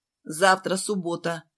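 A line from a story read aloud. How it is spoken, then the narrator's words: Stern. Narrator (Russian): строго сказала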